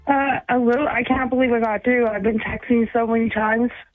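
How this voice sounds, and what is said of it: Nervous, excited voice. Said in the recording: “you sound nervous.”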